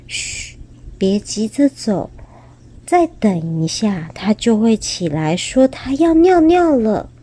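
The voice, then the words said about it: Soft whispered voice. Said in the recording (Chinese): “很小声地说”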